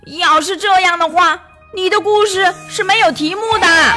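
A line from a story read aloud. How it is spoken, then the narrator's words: Shout. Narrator (Chinese): 格诺夫朝他大喊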